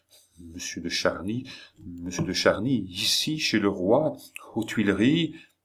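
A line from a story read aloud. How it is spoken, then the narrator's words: Very quiet. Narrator (French): tout bas ajoutait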